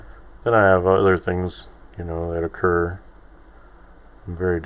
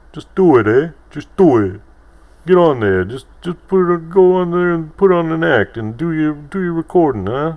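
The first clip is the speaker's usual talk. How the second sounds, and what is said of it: Imitates another person's voice. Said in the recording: “my impression of my nephews”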